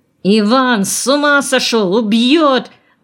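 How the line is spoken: Shouting. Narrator (Russian): закричал он

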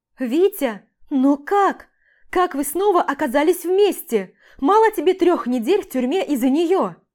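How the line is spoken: Shrieking mother. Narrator (Russian): Взвизгивает моя матушка

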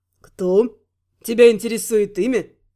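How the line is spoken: Wry snort. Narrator (Russian): хмыкнул новый сосед по столу

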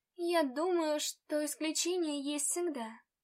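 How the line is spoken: Timid answer. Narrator (Russian): робко ответила я

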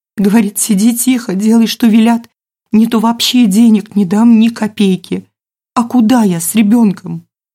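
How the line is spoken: Heavy sigh. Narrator (Russian): Елена тяжело вздохнула

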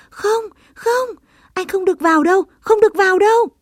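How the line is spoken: Frightened group cry. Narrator (Vietnamese): tất cả cùng sợ hãi kêu lên

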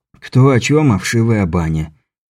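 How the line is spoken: Resigned sigh. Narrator (Russian): Беляев вновь обреченно вздохнул

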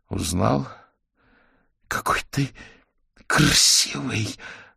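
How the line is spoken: Delighted breathy exclamation. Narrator (Russian): с восторгом выдохнула Белицкая

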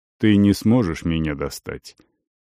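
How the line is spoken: Soft. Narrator (Russian): мягко сказал Тангил

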